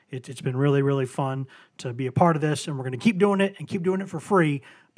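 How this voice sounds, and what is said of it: Scratchy, hoarse voice. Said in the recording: “my voice is completely scratchy”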